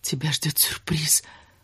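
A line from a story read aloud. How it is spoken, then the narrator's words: Passionate whisper. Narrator (Russian): пламенно прошептала она ему в ухо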